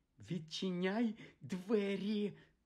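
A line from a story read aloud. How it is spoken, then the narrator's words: Hissed. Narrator (Ukrainian): засичала на Гаррі тітка Петунія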